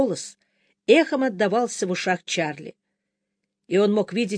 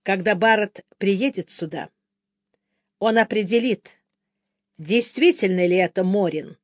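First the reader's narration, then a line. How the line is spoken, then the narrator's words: Plain. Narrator (Russian): сказал Бен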